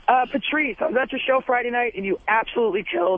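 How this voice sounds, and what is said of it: Hoarse, strained, fading voice. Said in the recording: “losing my voice a little bit”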